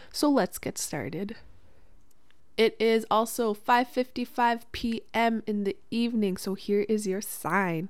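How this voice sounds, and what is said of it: Congested, sick-sounding voice. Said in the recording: “my voice is changed a little bit because I am starting to get sick. My throat hurts, my nose is stuffy”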